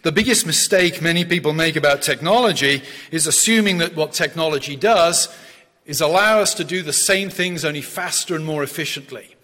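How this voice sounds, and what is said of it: English West Country accent. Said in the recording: “My accent gives it away that I'm an immigrant. ... I'm from the West Country of England.”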